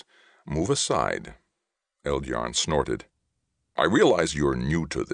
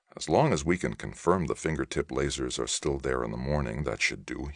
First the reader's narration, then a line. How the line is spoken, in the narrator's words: he murmured